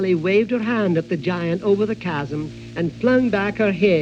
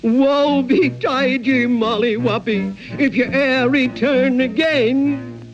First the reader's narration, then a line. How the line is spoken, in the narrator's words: he cried out after her in a dreadful voice across the chasm